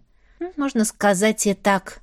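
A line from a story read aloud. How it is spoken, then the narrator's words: Sighing. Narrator (Russian): вздохнула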